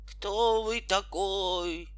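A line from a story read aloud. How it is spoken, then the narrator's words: Moaning giant. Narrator (Russian): простонал великан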